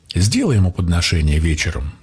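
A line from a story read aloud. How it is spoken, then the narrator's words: Plain. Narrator (Russian): сказал я девушке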